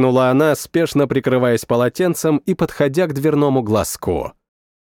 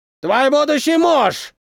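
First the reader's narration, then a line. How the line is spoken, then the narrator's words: Shout. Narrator (Russian): крикнул он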